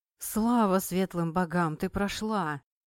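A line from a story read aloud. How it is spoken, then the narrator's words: Happy exhale. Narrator (Russian): Счастливо выдохнул Айдар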